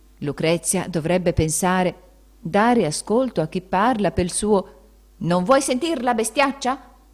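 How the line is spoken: Shouted very loudly. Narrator (Italian): Queste parole furono gridate così forte

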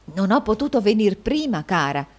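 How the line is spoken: Low voice. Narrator (Italian): egli disse a voce bassa

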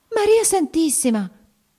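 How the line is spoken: Exclamation. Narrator (Italian): esclamò ella

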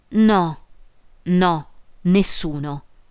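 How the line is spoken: Broken voice. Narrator (Italian): Emma disse con voce rotta

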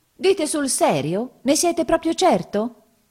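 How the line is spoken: Exclamation. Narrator (Italian): esclamò

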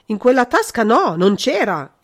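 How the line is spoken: Sudden instinctive exclamation. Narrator (Italian): esclamò il conte con uno scatto istintivo

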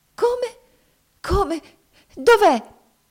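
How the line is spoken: Frantic woman exclaiming. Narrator (Italian): esclamò essa fuori di sé medesima

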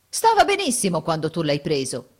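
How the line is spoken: Indignant exclamation. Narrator (Italian): esclama indignato

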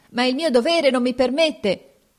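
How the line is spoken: Old man shouting. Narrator (Italian): il vecchio gridava

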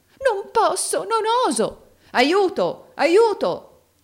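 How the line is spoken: Exclaimed. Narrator (Italian): esclamò Rodolfo

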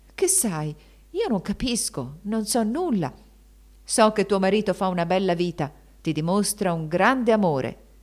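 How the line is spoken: Voice full of veiled menace. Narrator (Italian): esclamò il barone con voce gravida di sorde minacce

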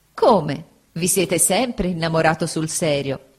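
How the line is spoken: Laughing. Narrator (Italian): disse Agnese, sempre ridendo

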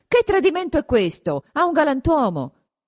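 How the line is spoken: Shouted. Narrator (Italian): grida

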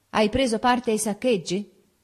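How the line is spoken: Friend shouting. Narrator (Italian): un amico che mi vide andare verso casa mia in maniche di camicia mi gridò

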